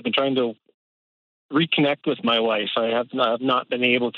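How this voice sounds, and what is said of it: Canadian accent. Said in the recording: “your accent brings me joy. It makes me happy... across the northern border in Calgary”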